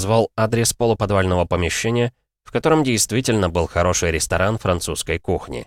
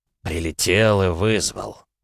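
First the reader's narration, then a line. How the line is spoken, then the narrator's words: Sighing. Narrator (Russian): вздохнул Лоусон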